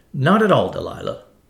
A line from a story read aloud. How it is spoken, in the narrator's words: said Mr